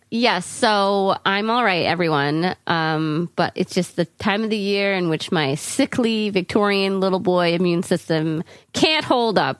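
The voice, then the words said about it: Raspy, sick-sounding voice. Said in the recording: “sorry about my beautiful raspy voice”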